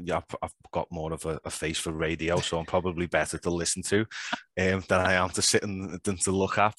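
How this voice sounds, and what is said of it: Scouse accent. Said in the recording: “if you've never heard a Scouse accent before, there you go. There it is.”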